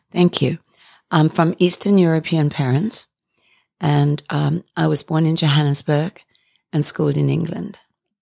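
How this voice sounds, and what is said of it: Beautiful foreign-sounding accent. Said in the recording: “You have a beautiful accent.”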